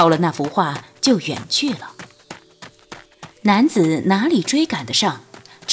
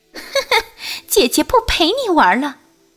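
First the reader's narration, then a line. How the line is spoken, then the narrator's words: Coquettish giggle. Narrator (Chinese): 青魔娇笑了一声道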